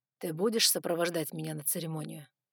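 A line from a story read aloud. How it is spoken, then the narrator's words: Soft dragon question. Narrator (Russian): мягко спросил дракон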